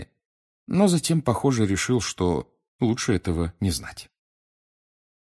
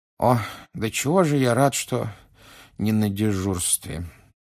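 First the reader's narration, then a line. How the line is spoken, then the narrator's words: Sleepy mumble. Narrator (Russian): сонно пробормотал мистер Уизли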